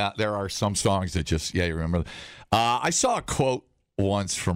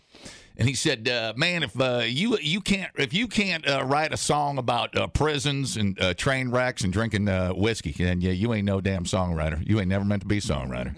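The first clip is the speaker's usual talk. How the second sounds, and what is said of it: Put-on southern accent. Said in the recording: “I want to do a little southern accent, you know, just like Ronnie Van Zant might sound like”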